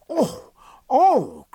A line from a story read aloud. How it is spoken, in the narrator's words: cried Jack, his face lighting with joy